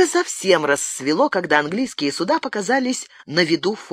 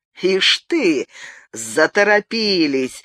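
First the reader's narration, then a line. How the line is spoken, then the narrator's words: Laughing duke. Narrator (Russian): рассмеялся герцог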